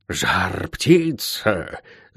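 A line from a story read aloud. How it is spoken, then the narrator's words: Whisper. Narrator (Russian): шепот старшей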